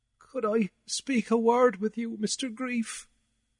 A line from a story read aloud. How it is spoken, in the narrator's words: he asked, sadly and humble